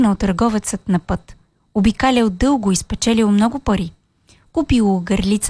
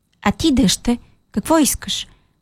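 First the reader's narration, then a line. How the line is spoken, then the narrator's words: Plain question. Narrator (Bulgarian): попитал бащата най-малката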